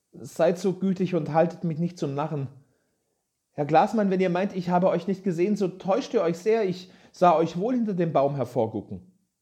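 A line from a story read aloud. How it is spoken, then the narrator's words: Call after hesitation. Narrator (German): rief nach einigem Zögern Peter Munk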